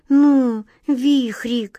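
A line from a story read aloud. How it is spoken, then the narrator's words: Pleading. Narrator (Russian): взмолилась Глазастик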